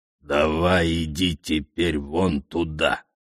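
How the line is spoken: Through gritted teeth. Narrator (Russian): процедил Скиран

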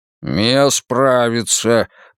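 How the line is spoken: Growled. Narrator (Russian): прорычал Мунк

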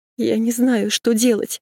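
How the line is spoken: Whimpering. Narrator (Russian): захныкала Машка

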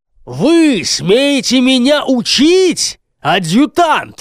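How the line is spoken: Angry booming. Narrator (Russian): рассерженно прогудел стражник

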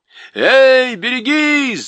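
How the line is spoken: Shout from crowd. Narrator (Russian): закричали в толпе

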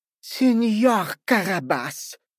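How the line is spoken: Breathed out. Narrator (Russian): выдохнул сеньор в пальто

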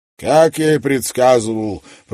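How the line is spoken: Grumbled. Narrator (Russian): проворчал мистер Клэр

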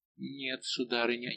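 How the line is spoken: Hesitant young woman. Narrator (Russian): неуверенно молвила молодая королева

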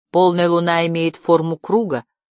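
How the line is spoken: Plain. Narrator (Russian): сказал он Барде

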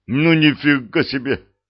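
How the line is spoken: Breathless exclamation. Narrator (Russian): выдохнул Артем

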